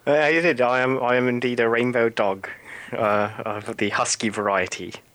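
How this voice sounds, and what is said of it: European-sounding accent. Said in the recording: “our second guest is not, in fact, from anywhere in Europe ... Everyone wants to know where the accent's from ... Tell us about your accent.”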